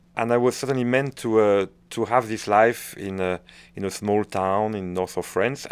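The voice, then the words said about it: French-accented English. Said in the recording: “you're lost in my French accent.”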